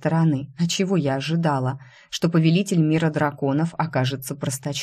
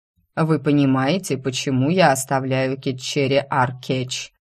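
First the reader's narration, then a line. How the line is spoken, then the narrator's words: Dry. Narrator (Russian): сухо кивнул повелитель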